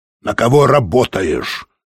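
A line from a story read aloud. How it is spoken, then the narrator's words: Stern question. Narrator (Russian): строго спросил англичанин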